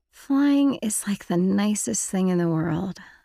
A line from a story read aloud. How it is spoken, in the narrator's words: I said dreamily